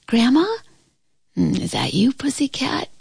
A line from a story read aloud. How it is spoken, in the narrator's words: she answered in a sleepy voice